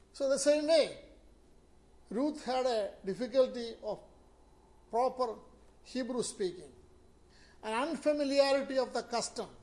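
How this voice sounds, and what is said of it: Indian-accented English. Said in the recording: “you put Indian accent, therefore we have to wait to understand the word you are saying”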